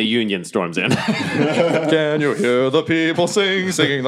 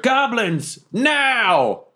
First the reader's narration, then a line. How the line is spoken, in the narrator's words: I also yell over my shoulder